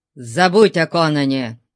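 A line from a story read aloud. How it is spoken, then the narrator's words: Rude. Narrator (Russian): грубо сказал он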